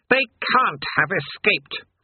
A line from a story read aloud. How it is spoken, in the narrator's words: rasped Astfagel